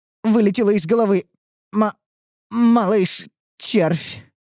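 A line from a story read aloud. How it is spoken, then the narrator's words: Strained, creaky. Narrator (Russian): выдавила из себя со скрипом слуга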